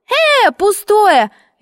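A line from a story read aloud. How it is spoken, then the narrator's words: Dashing shout. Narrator (Russian): лихо крикнула я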